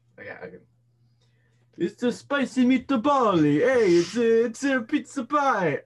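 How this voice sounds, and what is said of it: Put-on Italian accent. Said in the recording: “that was an Italian accent.”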